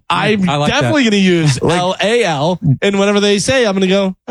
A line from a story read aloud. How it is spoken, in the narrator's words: I laughed a little